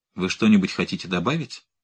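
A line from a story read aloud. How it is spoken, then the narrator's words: Cold inquiry. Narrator (Russian): холодно осведомилась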